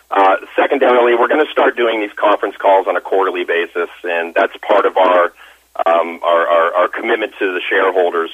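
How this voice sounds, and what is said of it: Hoarse, strained voice. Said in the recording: “I'm losing my voice, so I'm going to struggle through this a little bit. So sorry for the extra noise on my end.”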